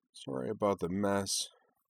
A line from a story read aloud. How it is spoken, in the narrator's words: she said in a low, dispirited tone